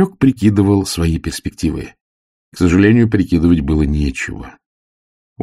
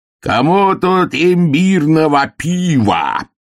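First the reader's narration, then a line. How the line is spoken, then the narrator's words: Roared. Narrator (Russian): взревел кто-то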